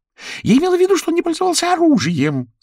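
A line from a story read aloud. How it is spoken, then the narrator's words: Shouting squirrel. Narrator (Russian): закричала белка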